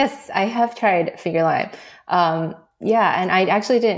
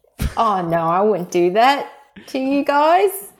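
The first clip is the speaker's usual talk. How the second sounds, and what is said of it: Convincing put-on Australian accent. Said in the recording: “Australian accents ... that was actually better ... very convincing”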